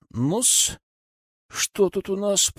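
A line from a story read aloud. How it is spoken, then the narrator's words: Grumble. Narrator (Russian): пробурчал я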